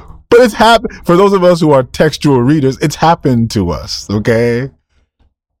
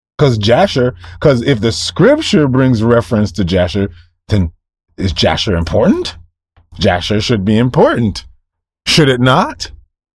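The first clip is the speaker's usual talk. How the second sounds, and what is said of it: Sarcastic tone. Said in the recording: “if I sound sarcastic.”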